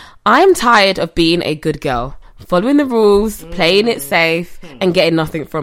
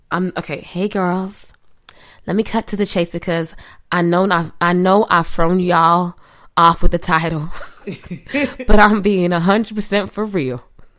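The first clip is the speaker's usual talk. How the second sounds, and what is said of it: Put-on American accent. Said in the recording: “Read an American accent. ... So you're American. Definitely. ... I'm going to go back to British because I'm not the best.”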